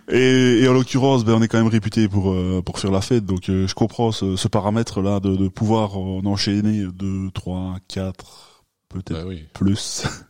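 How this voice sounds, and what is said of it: Liège Belgian French accent. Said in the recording (French): “on est tous les deux liégeois ... ça s'entend de toute façon ... l'accent.”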